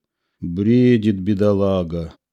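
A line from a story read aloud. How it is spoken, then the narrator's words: Sighing. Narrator (Russian): вздохнул я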